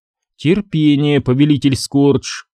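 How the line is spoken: Plain. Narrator (Russian): сказала она

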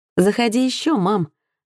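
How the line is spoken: Inscrutable, mocking, haughty tone. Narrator (Russian): отозвался Джонатан непроницаемым тоном, в котором можно было расслышать и насмешку, и высокомерие, и даже простое дружелюбие

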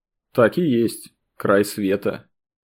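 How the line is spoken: Thoughtful. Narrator (Russian): Почему-то задумчиво произнес Сергей

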